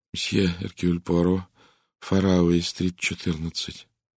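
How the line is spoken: Flat lifeless voice. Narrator (Russian): он произнес ровным, неживым голосом

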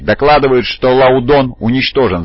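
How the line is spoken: Shouted. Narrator (Russian): закричал другой

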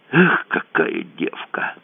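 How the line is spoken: Sighed. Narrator (Russian): вздохнул Кацуба

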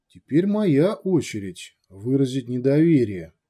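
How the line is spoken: Soft smiling. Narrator (Russian): мягко улыбнулся Дегир

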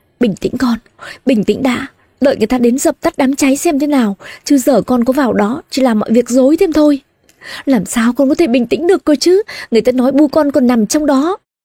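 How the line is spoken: Sobbing. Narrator (Vietnamese): thím Thoa nức nở nói

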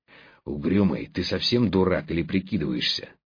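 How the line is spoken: Threatening hiss. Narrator (Russian): зашипел он, грозя перейти на такой шепот

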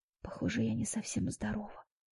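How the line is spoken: Whisper. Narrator (Russian): прошептала я в ответ

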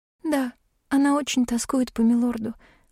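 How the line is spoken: Sighed. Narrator (Russian): вздохнула Шерри

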